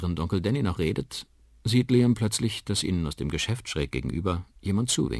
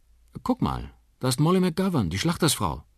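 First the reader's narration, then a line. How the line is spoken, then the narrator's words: Called out. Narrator (German): ruft Liam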